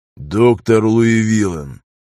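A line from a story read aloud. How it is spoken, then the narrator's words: Icy tone. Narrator (Russian): ледяным тоном произнес Кристоф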